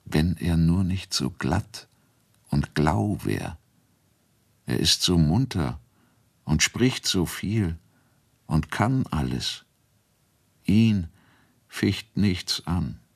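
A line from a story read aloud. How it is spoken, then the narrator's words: Soft. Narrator (German): Mal sagte sie leise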